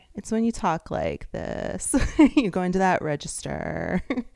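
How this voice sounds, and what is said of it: Vocal fry, creaky low register. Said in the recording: “vocal fry”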